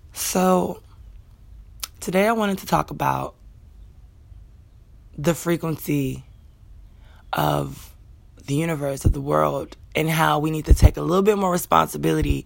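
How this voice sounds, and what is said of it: Scratchy morning voice. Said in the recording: “my voice is going to be a little scratchy. Always scratchy.”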